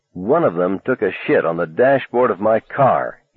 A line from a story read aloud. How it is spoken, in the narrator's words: said coldly